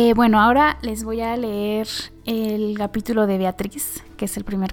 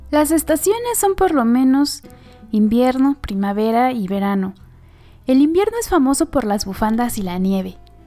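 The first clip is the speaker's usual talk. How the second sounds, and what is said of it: Innocent little girl voice. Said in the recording (Spanish): “hacer voz de niña chiquita ... para que, que tenga como más tono de esta inocencia”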